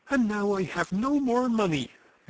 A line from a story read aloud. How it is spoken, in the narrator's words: exclaimed Christian excitedly